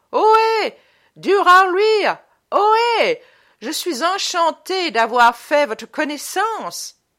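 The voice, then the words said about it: Loud shout in mock English accent. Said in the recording (French): “une voix forte vient qui crie, avec un accent fortement anglo-sardonique”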